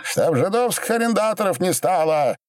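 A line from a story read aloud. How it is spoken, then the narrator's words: Near shout. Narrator (Russian): Почти крикнул Боба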